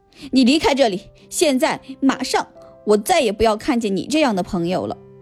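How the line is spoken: Sternly. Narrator (Chinese): 彼得潘厉声说

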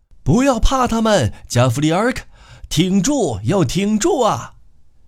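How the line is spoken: Loud encouraging shouts. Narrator (Chinese): 另一些人高声给他鼓励，叫喊着

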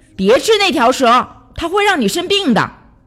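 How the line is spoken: Shouting. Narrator (Chinese): 最大的那只羚羊喊道

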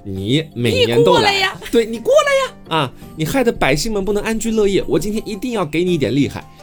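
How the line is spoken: Child shouting loudly. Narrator (Chinese): 这个小孩就对着那个恶兽大声喊说

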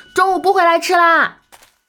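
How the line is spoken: Calling out. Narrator (Chinese): 嘴里喊着

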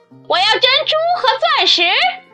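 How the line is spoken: Shouting. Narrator (Chinese): 第二个叫道

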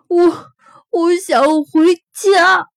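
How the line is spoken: Crying. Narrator (Chinese): 麦克终于忍不住哭了起来

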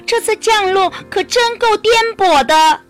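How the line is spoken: Cry out. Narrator (Chinese): 安雅叫了一声

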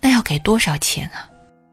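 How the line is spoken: Nervous quiet murmur. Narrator (Chinese): 爷爷则显得很局促，小声说了一句

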